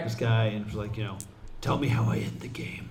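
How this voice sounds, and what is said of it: Batman-style character voice. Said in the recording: “In a Batman voice.”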